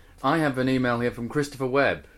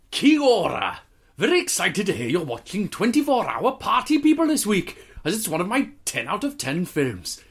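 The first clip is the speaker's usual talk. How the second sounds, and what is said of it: Put-on Welsh accent. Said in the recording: “I'll do it Welsh, I think. ... You should do Welsh”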